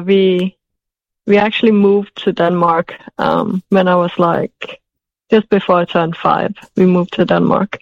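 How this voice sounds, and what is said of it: Noticeable non-native accent. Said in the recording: “where's your accent from? ... beautiful ... accent ... I lived in England for 11 years. So that could explain some of my accent.”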